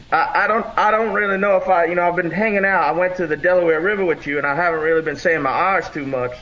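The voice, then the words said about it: Southern US accent. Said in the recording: “that very North Carolina accent and that Alabama accent”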